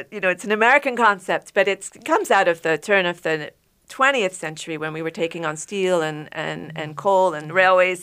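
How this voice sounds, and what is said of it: English accent. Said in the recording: “I'll pull my English accent out”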